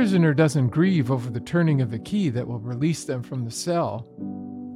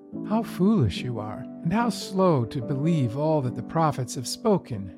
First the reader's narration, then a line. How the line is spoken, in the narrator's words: Jesus said